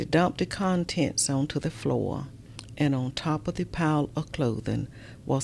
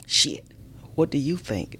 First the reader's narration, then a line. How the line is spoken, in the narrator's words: Mama snapped